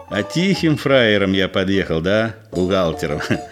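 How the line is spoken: Chuckling. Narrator (Russian): Егор хохотнул

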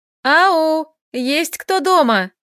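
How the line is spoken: Joyful loud bawling. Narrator (Russian): Прогорланила радостно

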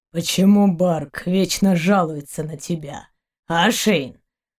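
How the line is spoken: Grumbling. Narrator (Russian): проворчал Заури

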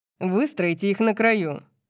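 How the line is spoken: Growl. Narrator (Russian): прорычал Сет

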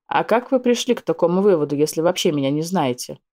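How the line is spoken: Skeptical snort. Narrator (Russian): хмыкнул недоверчиво

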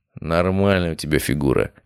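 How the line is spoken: Snorting. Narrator (Russian): хмыкнул я

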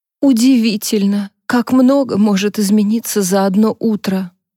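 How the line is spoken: Sighing. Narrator (Russian): вздохнула Джонни

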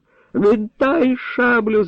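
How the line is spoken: Squealing like stuck boar. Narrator (Ukrainian): заверещав, як недорізаний кабан сотник

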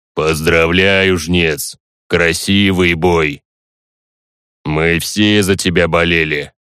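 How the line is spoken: Deep bass voice. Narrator (Russian): Янкрок пробасил

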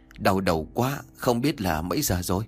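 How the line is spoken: Weary, aching old man. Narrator (Vietnamese): toàn thân nhức mỏi, ông Vọng liền nói

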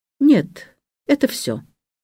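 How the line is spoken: Curt, cold. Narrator (Russian): он говорит отрывисто и холодно

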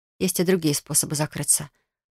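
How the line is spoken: Whisper. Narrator (Russian): прошептала я

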